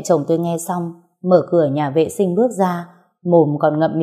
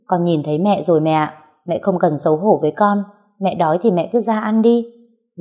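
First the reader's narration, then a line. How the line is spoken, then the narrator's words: Loud, laughing. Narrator (Vietnamese): Tôi bật cười nói lớn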